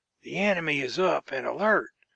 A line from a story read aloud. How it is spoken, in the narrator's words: whispered St